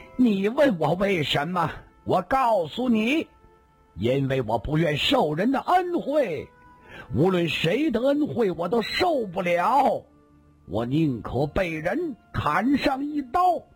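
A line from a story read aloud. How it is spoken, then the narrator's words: Loud. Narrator (Chinese): 孙驼子又突然跳起来，大声说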